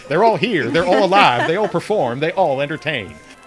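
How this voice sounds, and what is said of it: Sideshow barker voice, slight accent. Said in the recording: “I'm channeling John Bradshaw now. ... John Bradshaw has a slight accent.”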